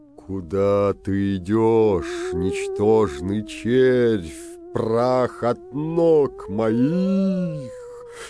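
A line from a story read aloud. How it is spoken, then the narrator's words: Terrifying ghostly voice. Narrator (Russian): сказал страшным голосом средний призрак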